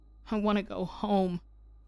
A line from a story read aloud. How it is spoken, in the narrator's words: Kai whimpered